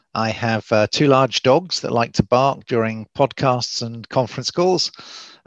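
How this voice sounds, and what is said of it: English accent. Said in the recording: “as you can probably tell from the accent, I'm English from Oxford”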